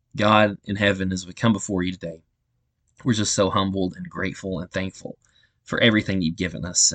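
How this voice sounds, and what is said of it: Distractingly affected, unwell-sounding voice. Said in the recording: “I've been struggling with this allergy issue and everything ... I hope that my voice hasn't been too distracting”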